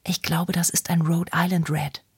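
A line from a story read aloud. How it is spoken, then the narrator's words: Whispered. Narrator (German): flüsterte sie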